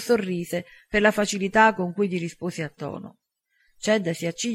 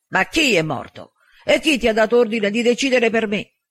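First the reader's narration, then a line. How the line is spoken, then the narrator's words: Near shout. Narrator (Italian): Chad quasi urlò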